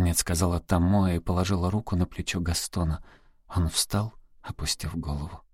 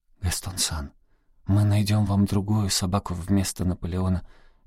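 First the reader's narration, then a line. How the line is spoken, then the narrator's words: Soft, gentle. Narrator (Russian): мягко проговорила Тамоэ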